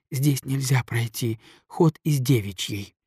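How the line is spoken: Desperate whisper. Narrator (Russian): сказала она шепотом с выражением истинного отчаяния

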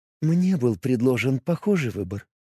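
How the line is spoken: Quiet. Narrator (Russian): тихо сказала она

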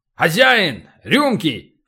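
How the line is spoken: Loud bark. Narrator (Russian): гаркнул Полубой

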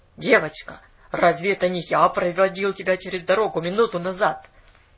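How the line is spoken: Stern question. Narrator (Russian): строго спросил

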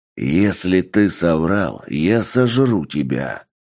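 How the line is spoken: Growling werewolf. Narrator (Russian): рыкнул оборотень 2-го уровня трансформации

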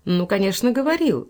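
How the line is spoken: Cheerful reply. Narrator (Russian): весело отвечала, видя, что ее красота произвела впечатление

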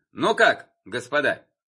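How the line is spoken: Loud question. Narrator (Russian): громко спросил Суворов

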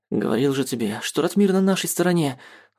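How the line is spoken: Proud. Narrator (Russian): С гордостью сообщил я Радиму

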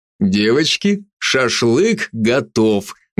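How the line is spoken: Loud announcement. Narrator (Russian): громко сообщил

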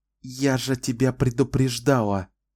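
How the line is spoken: Whisper through teeth. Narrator (Russian): прошепела Денна сквозь зубы

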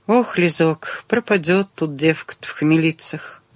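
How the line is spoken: Sighing. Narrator (Russian): вздохнула Дарья Ивановна

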